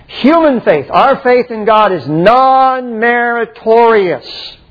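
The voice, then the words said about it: Raised, louder emphatic voice. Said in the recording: “raising my voice”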